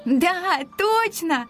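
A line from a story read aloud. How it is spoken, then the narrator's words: Burst of laughter. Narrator (Russian): расхохоталась Ника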